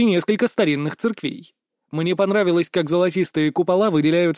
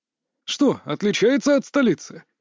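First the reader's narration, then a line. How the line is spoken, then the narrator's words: Old man's snort. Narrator (Russian): хмыкнул дед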